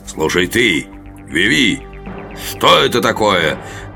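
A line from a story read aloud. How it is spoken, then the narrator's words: Growl. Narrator (Russian): прорычал Гарвилл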